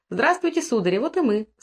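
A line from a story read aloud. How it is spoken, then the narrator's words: Cheerful, slightly affected. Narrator (Russian): сказала Маша, весело и немного жеманясь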